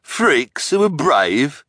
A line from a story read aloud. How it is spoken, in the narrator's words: the hook-handed man sneered